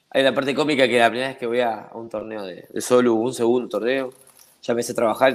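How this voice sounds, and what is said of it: Argentine Spanish accent. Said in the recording (Spanish): “por el acento, ya Latinoamérica entera sabe que eres argentino”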